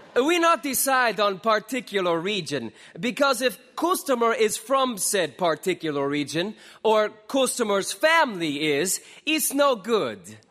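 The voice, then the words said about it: Bad mixed foreign accent. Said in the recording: “We feign bad foreign accent”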